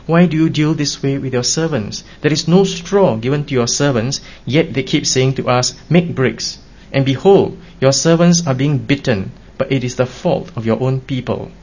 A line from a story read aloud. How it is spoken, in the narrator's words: the foremen of the sons of Israel cried out to Pharaoh, saying